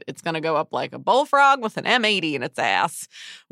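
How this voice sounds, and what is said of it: Exaggerated bad Southern US accent. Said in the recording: “apologies for that terrible Southern accent ... in a really ridiculous regional accent”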